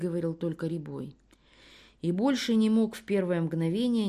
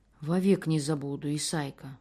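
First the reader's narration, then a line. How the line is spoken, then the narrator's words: Trembling voice. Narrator (Russian): дрогнувшим голосом проговорил Рябой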